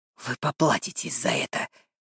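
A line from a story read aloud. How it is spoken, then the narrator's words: Hoarse. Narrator (Russian): хрипит он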